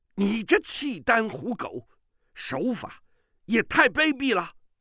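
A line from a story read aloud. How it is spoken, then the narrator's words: Shouting. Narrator (Chinese): 玄寂见玄难左支右绌，抵敌不住，叫道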